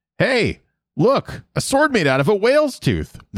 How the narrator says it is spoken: the Avatar exclaims

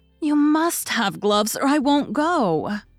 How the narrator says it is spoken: cried Meg decidedly

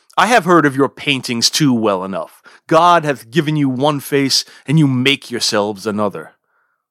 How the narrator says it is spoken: Accusing of duplicity, shouts

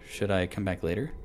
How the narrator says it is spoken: I asked gently

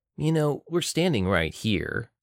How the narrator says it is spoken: said Joel

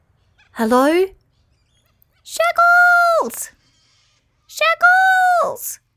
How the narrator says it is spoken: called out

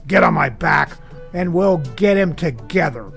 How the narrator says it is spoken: the lion says angrily

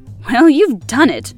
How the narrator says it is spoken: cried at last

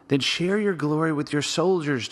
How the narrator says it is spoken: Joab pleaded

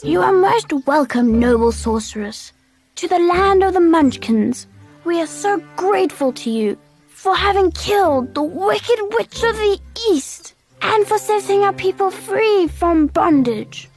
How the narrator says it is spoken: the little old woman said in a sweet voice

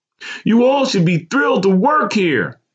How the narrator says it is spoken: the petite young woman with dyed bleach blonde hair yelled

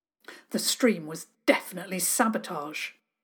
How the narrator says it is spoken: Diggory said grimly

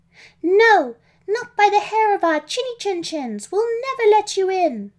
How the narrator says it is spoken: they shouted back, before laughing meanly

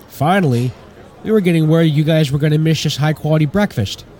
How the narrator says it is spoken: Wooly called out

